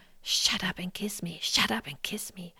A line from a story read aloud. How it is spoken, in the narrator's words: he continues to whisper